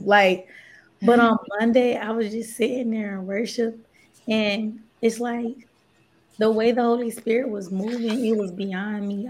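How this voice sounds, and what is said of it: Hoarse, nearly lost voice. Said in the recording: “That's why my voice is gone”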